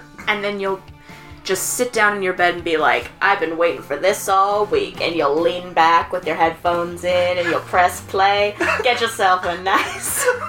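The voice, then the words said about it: Put-on accent for a character. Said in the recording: “What is this accent? ... This is my new character. Is that your podcast listening accent? ... this is my impression of our listeners.”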